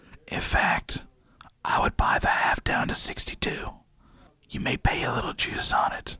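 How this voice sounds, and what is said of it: Usual voice. Nothing is said of it.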